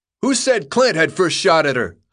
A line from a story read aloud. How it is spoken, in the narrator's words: yelled from the crowd